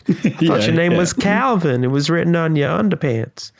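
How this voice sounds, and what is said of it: Unidentifiable put-on accent. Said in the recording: “Don't know what the accent was. Sorry about that.”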